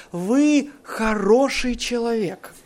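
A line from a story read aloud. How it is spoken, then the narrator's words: Calm. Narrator (Russian): спокойно продолжает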